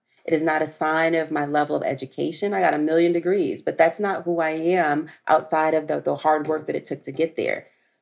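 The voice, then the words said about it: Country twang accent. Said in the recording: “I'm a country girl, so maybe you hear my twang every now and then”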